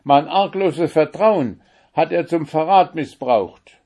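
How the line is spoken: Shouting. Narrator (German): schrie

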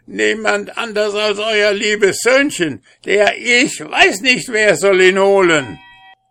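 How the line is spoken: Wailing hermit. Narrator (German): Der Einsiedler jammerte

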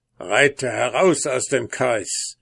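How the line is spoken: Dwarf calling out. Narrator (German): rief der Zwerg

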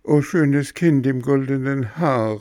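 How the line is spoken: Calling. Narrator (German): rief Bengele

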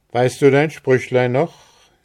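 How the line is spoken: Calling out to someone. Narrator (German): rief er ihr entgegen

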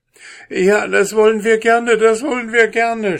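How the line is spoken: Devils shouting. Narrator (German): schrien die Teufel

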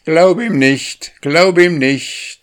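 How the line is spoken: Calling out. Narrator (German): rief er

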